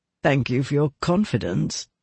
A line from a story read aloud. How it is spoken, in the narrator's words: said Prendick dryly